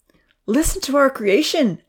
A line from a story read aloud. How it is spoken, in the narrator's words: Evan exclaimed to the smiling professor